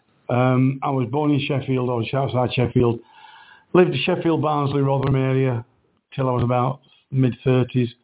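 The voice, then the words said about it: Yorkshire accent. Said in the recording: “that's not a Lincolnshire accent ... I have a Yorkshire accent.”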